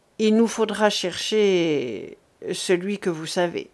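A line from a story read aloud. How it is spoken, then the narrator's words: Young man, muffled voice. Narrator (French): reprit le jeune homme d'une voix sourde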